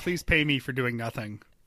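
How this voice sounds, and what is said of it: Imitates another person's voice. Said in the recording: “I think that's my Kardashian impression.”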